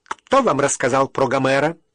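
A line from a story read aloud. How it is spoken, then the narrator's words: Sudden sharp question. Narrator (Russian): Директриса вдруг резко спросила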